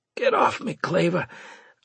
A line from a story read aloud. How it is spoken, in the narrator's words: I managed to say in a raspy voice